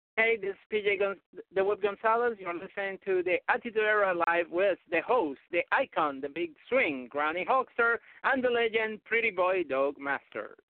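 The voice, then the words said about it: Speaks with a distinctive accent. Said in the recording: “I love your accent. It's awesome, especially the way that you say icon.”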